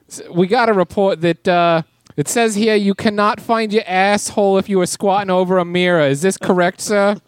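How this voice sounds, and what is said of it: Put-on South Boston accent. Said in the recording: “Boston accent. ... Yeah, like South Boston.”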